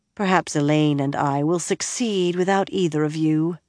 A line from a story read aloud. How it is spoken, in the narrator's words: Nynaeve said dryly